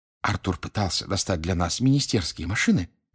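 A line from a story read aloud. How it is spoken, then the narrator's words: Whisper. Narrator (Russian): шепнула она Гарри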